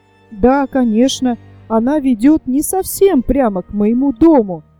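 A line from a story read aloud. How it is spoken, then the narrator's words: Babbling, stammering. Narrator (Russian): залепетал Петер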